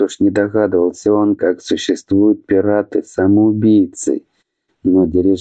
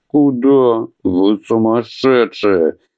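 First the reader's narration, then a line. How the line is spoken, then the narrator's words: Howling. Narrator (Russian): взвыл Адхи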